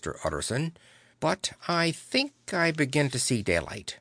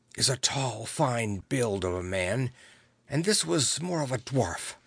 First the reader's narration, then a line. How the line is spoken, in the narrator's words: began to whisper